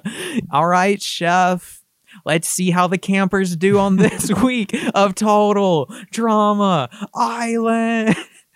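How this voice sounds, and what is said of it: Imitates a cartoon game show host. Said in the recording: “I'm talking like Chris McClane from Total Drama Island ... my Chris McClane impression”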